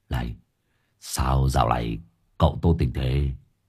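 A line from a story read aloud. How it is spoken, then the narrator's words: Quiet voice. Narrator (Vietnamese): Hải nghẹo nhỏ giọng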